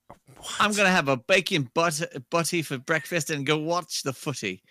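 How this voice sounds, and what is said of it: Poor attempt at British accent. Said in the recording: “let's hear your British accent then ... That's horrible.”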